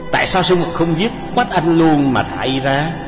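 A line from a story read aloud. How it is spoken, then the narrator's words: Sighing. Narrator (Vietnamese): Đô Dương thở dài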